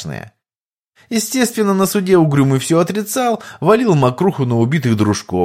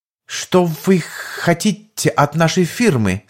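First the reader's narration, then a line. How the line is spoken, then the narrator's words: Slightly trembling question. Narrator (Russian): Стараясь не выдать себя, немного дрожащим голосом поинтересовался я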